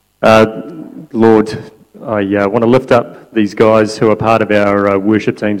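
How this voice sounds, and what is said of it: English accent. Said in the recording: “Hasn't he got a good English accent? He's got a better one than me.”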